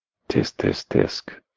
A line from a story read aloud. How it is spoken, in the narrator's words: he whispered, in disappointment